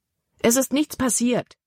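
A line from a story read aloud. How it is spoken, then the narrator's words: Exclamation. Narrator (German): rief Libby aus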